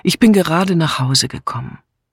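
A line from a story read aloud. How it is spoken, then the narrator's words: Answered wearily. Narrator (German): antwortete Julia müde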